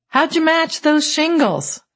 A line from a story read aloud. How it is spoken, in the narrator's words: called out